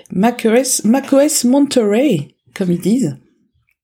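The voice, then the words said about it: Put-on English accent. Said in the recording (French): “Avec le bel accent.”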